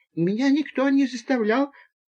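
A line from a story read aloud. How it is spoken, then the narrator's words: Timid babble. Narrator (Russian): пролепетал Боря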